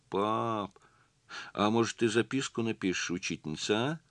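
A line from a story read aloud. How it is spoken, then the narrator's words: Timid request. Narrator (Russian): Робко попросила Лиля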